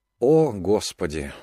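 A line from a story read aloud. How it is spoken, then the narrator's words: Cook sighing. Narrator (Russian): вздохнул повар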